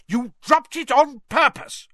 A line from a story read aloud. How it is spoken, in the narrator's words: roared Mr